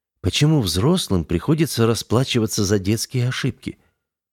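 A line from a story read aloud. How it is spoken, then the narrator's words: Quiet question. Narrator (Russian): негромко спросила Пандора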